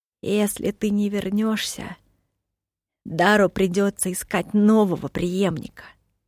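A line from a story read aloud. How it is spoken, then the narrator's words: Plain. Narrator (Russian): сказал он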